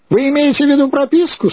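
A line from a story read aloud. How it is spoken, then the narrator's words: Question, then laughter. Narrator (Russian): спросил он и рассмеялся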